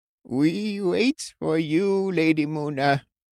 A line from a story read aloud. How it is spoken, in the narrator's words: the witch croaked